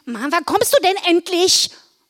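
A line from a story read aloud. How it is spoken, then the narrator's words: Called out. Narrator (German): rief sie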